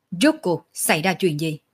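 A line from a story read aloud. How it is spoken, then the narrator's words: Angry. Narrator (Vietnamese): Sở Dương tức giận nói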